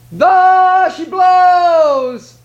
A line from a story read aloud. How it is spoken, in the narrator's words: he cried